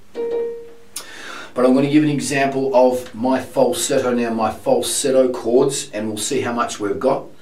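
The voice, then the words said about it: Strained, laboured hoarse speaking voice. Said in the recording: “I haven't got acute laryngitis anymore. I can still speak, but it's really labouring for my voice. It actually hurts my voice to speak”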